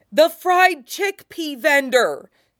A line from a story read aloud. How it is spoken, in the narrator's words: Ed yells, half-overlapping with the buck-toothed girls